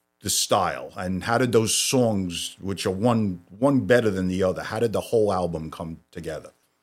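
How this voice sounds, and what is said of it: Brooklyn accent. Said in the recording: “So this is a bona fide Brooklyn accent... it just sounds so great”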